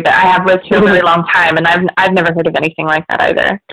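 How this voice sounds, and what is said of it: Foreign-sounding accent. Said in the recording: “my accent kind of makes me sound foreign”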